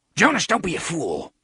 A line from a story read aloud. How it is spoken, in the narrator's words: Lengil snarled